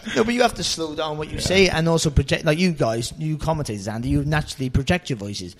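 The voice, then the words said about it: Fast, mumbled Cardiff Welsh accent. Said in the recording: “I'm a Cardiff boy, and I haven't lost my accent one bit. So it's a fast accent. And also, being a boxer, you mumble, and just naturally mumble.”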